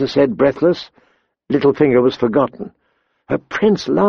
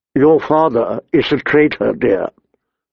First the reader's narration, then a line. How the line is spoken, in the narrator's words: Lord Varys said